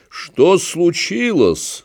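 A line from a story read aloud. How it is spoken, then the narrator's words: Very loud question. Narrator (Russian): спросил он очень громко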